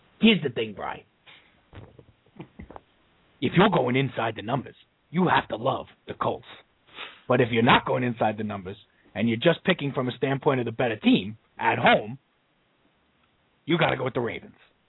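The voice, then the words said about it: Imitates another person's voice. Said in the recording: “a Jimmy the Greek impression ... I don't even know if that was an accurate impression.”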